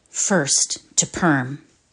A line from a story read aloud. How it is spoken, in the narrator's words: Lentilov said in an undertone